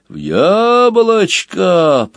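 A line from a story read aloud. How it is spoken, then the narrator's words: Booming hum, tiny cyclone. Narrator (Russian): прогудел миниатюрный циклон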